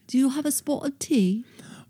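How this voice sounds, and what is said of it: Put-on British accent. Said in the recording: “Want to do a British accent talk off real quick?”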